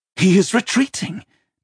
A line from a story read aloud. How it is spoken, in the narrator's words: Deornoth said happily